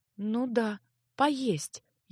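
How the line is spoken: Muttered. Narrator (Russian): бормотала

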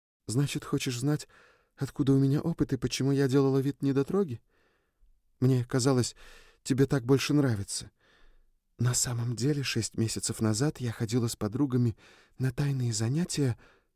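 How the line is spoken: Whispered confession. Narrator (Russian): призналась Триш шепотом

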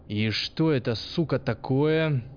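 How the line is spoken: Barked. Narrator (Russian): рыкнул он

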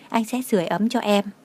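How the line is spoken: Whispering. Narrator (Vietnamese): thì thầm

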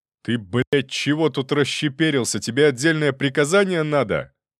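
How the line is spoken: Bossy yelling. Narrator (Russian): Сходу заорал он, раздуваясь от припадка начальственного вдохновения

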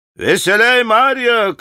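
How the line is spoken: Shouting. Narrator (Russian): кричала она

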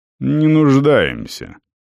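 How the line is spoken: Cold curt. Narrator (Russian): холодно бросил Светлый

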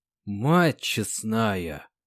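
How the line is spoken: Whisper. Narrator (Russian): прошептал Синенко

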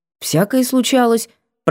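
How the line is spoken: Confused muttering. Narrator (Russian): пробормотала растерянно

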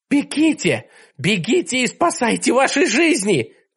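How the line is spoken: Shouted. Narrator (Russian): крикнула она

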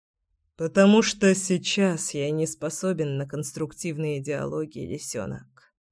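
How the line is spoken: Muttered. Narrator (Russian): пробормотал Кирилл

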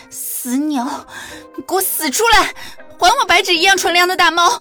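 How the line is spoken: Furious cursing through teeth. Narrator (Chinese): 青印带了一身杀气，一边找一边咬牙切齿地咒骂

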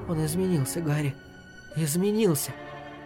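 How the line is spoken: Sharp piercing whisper. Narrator (Russian): Ее слова, хоть и произнесенные шепотом, вонзались в него ножом

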